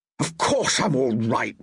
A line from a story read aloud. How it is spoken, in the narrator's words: he growled